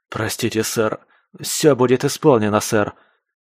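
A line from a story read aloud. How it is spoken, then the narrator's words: Hurried broken mumble over radio. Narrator (Russian): Торопливо забормотал в рацию сломленный бот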